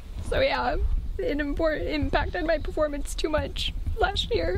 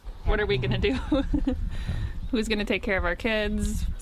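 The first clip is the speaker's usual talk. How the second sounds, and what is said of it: Emotional, shaky voice. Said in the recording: “a little emotional.”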